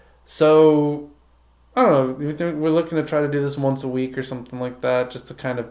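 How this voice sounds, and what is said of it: Usual voice. Nothing is said of it.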